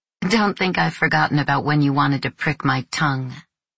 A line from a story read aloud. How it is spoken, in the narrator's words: laughing